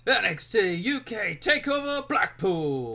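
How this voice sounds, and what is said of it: Wrestling event announcer voice impression. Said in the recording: “good impression... if you're doing the announcer for NXT UK, that was perfect”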